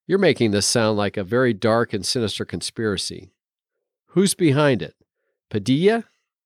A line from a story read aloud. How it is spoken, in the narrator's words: The dragon lady didn't quite snort